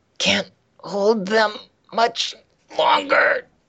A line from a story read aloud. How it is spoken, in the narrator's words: he grunts